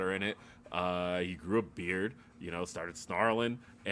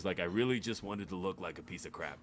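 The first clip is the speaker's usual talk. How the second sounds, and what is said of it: Imitates another person's voice. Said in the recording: “nice Triple H impression too. I liked it.”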